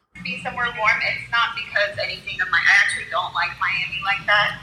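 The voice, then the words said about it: Australian accent. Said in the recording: “I'm just originally from Australia ... With that accent?”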